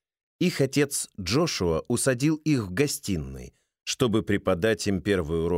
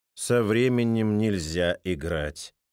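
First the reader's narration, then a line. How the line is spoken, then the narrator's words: Even, calm tone. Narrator (Russian): сказал отец тем же ровным тоном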